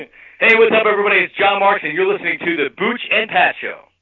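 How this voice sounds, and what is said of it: Announcer-style radio voice. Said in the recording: “I'll do it on my radio voice too”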